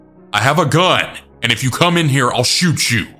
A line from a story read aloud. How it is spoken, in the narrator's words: I had yelled out